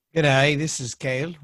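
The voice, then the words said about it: Good put-on Australian accent. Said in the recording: “with my Australian accent... That's a good Australian accent.”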